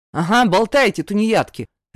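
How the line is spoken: Barked. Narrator (Russian): Рявкнул

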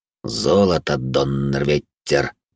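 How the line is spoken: Cursing through gritted teeth. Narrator (Russian): сквозь зубы ругнулся Винсент

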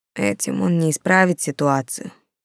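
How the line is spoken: Quiet. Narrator (Russian): тихо сказал Антон

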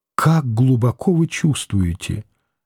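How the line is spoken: Grateful, low voice. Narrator (Russian): Нехаева благодарно вполголоса сказала

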